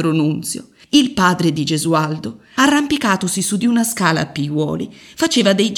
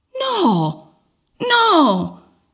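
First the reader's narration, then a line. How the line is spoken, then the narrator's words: Shouted from below. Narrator (Italian): gridarono di sotto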